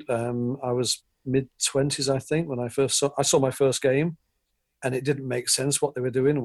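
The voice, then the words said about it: English accent. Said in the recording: “I'm English. My accent's telling you I'm not American”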